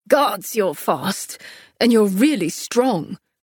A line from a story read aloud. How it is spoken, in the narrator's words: he grunted, his arms trembling as he held me back